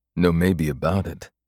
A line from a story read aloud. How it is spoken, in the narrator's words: AJ said gruffly